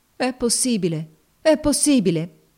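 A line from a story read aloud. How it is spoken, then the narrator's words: Exclaimed. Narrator (Italian): esclamò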